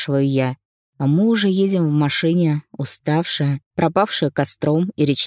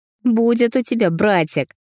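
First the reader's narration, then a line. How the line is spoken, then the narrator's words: Snide reply. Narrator (Russian): Ехидно отвечает Алиса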